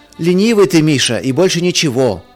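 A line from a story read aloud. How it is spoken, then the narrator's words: Shout from another room. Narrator (Russian): из ванной крикнул Марк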